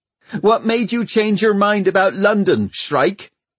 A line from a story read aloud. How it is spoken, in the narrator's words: shouted Hester angrily